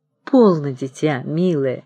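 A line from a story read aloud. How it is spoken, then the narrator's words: Coaxing, secretly joyful. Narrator (Russian): уговаривал отец, а у самого радостно билось сердце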